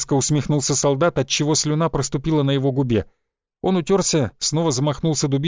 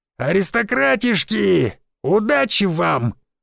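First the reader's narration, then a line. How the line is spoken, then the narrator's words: Shout from crowd. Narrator (Russian): выкрикнул кто-то из толпы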